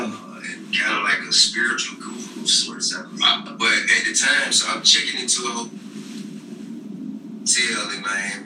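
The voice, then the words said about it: Thick Atlanta accent. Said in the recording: “the Atlanta accent is thick on T.I.”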